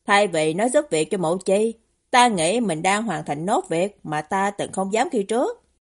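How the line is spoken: Stunned, then smiling reply. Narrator (Vietnamese): Người đó hơi sững người trong giây lát, rồi cũng mỉm cười, đáp rằng

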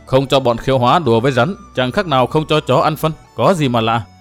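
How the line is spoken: Mocking. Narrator (Vietnamese): Công Tôn Thâu chế nhạo

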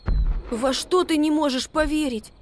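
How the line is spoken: Squeaky. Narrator (Russian): пискнул Макси

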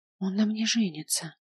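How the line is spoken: Repeated whisper. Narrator (Russian): повторяла она шепотом

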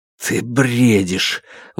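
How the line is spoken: Breathless exhale. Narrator (Russian): выдохнул Алексей

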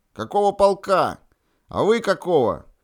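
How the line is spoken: Shouted at full voice. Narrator (Russian): капитан 4-й роты Иванов крикнул во весь голос

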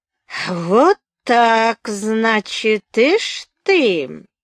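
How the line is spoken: Drawl. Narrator (Russian): протянул Мишуков

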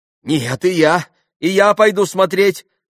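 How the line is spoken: Naive exclamation. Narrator (Russian): воскликнул Колганов, самым наивным образом

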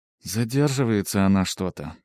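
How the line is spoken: Said with heavy sigh. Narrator (Russian): произнесла Эрен и тяжело вздохнула

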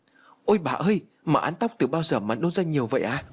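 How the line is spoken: Frightened shout. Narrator (Vietnamese): Con Mận sợ hãi hét lên

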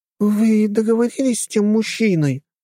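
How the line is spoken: Joyful question. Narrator (Russian): радостно спросила блондинка

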